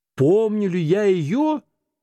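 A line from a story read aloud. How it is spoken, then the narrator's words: Heated exclamation. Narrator (Russian): воскликнул жаром Скрудж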